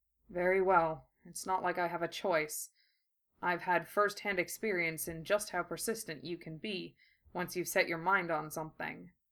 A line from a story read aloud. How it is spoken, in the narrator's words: Gara muttered